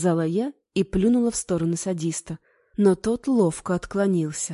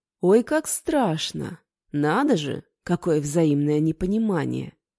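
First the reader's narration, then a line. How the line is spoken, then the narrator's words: Calm declaration. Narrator (Russian): заявил он спокойно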